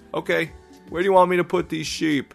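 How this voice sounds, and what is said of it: Thick put-on New York accent. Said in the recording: “such a thick New York accent”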